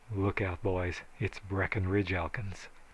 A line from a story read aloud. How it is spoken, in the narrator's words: The rest of them renegades muttering